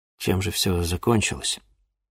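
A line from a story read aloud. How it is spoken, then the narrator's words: Barely audible question. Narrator (Russian): чуть слышно спросил Денис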